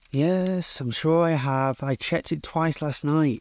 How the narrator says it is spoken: sighing slightly, as if it had taken too much energy to answer

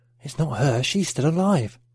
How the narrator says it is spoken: Pat whispered to Mark

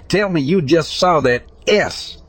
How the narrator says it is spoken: Immediately I turned around to my friends and exclaimed

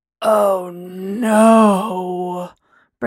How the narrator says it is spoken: Braylon moaned

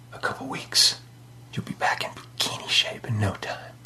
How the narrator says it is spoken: He whispered in her ear

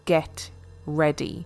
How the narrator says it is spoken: with a menacing smile

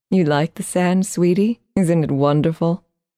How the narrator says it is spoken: she asked

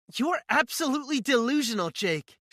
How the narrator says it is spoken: she yells at me

